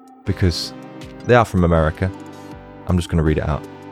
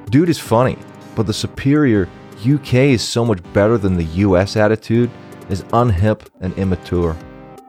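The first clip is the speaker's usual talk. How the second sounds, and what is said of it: Bad put-on American accent. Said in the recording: “I'm going to read this in an American accent ... This accent's shit.”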